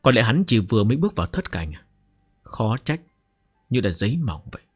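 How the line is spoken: Muttering to himself. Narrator (Vietnamese): Trần Bình An tự lẩm bẩm

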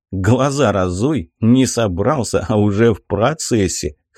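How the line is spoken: Amused snort. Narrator (Russian): хмыкнул

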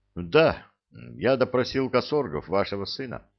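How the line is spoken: Sighing. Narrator (Russian): вздохнул Ле-Этхе

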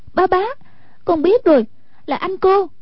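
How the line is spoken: Sudden realizing exclamation. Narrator (Vietnamese): lập tức hiểu rõ, kêu lên

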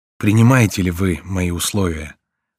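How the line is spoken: Sad smiling question, prisoner. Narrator (Russian): спросил узник, грустно улыбаясь

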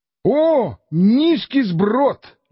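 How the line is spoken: Exclaiming. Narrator (Russian): воскликнул тогда Санчо

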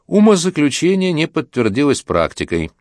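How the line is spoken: Soft, pleasant voice. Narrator (Russian): Кондрашов своим мягким, приятным голосом скажет

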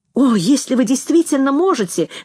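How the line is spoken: Couple exclaiming together. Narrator (Russian): воскликнули муж и жена

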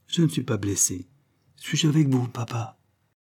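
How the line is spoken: Soft. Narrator (French): fit-elle doucement

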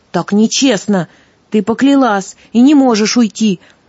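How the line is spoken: Indignant young man's shout. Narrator (Russian): возмущенно крикнул юноша

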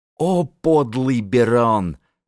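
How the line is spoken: Groan. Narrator (Russian): простонал Крестодемус

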